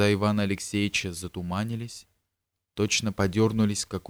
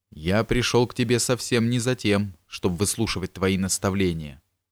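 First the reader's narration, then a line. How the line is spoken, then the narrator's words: Sharp. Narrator (Russian): Алексей гордо поднял голову и резко сказал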